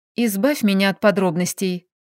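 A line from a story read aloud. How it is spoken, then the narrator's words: Quiet request. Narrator (Russian): попросила я тихо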